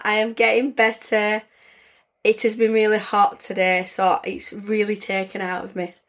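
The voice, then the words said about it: Slightly raspy voice. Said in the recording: “still a little bit of a raspy voice”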